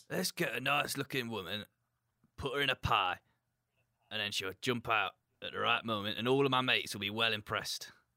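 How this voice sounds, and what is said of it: Put-on Yorkshire accent. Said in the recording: “had a Yorkshire accent there”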